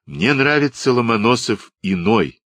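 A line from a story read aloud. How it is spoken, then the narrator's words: Plain. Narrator (Russian): сказал Вальранд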